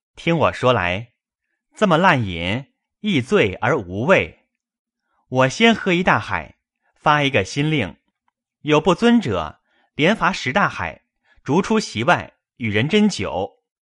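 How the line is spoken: Laughing. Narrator (Chinese): 宝玉笑道

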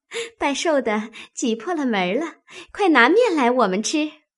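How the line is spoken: Cheerful laughing group. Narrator (Chinese): 笑着进来，说

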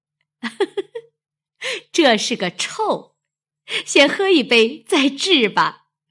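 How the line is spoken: Laughing. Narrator (Chinese): 鸳鸯笑道

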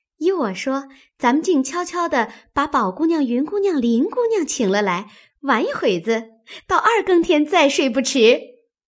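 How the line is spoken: Laughing. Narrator (Chinese): 春燕笑道

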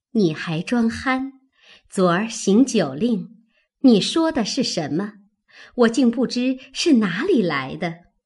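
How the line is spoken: Laughing. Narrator (Chinese): 宝钗笑道

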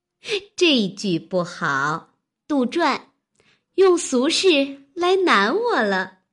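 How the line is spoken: Laughing. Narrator (Chinese): 湘云笑道

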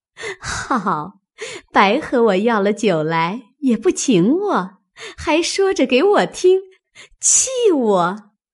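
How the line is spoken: Laughing. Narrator (Chinese): 平儿笑道

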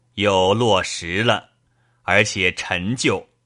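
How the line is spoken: Laughing. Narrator (Chinese): 贾政笑道

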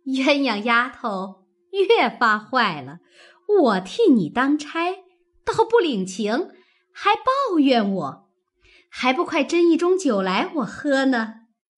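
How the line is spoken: Laughing. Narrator (Chinese): 凤姐笑道

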